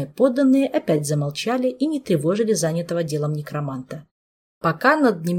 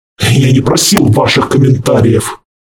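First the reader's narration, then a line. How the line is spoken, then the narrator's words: Demon's snarl. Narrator (Russian): рыкнул демон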